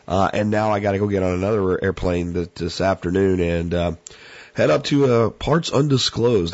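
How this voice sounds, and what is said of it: Rough, sick-sounding voice. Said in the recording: “As you can hear right here, my voice is bad. I'm still recovering from whatever crud that I got”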